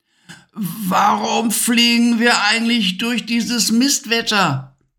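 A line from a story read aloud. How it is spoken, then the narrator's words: Shouting over a storm. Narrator (German): brüllte Levi gegen den heulenden Sturm an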